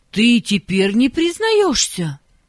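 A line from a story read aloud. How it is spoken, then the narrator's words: Indignant teacher. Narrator (Russian): возмущенно сказала учительница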